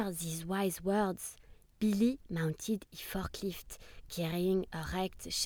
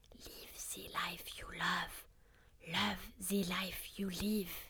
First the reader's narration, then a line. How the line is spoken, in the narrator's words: He whispered in Frank's ear